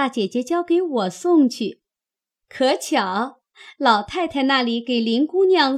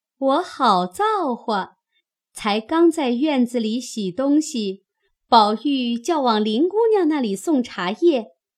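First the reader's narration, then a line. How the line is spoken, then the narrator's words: Laughing. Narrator (Chinese): 佳慧 笑道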